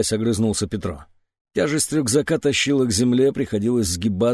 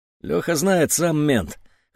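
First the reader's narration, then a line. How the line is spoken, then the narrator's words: Elder man smirking. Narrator (Russian): хмыкнул старший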